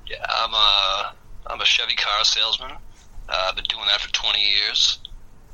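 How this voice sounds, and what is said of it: Distinct Boston accent. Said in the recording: “You have kind of a distinct accent. ... right outside of Boston, Massachusetts.”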